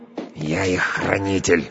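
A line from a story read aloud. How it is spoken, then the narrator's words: Quiet growl. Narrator (Russian): рычу тихо, чтобы не разбудить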